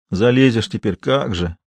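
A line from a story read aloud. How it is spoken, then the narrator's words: Almost plaintive. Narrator (Russian): почти жалобно проговорил Сошников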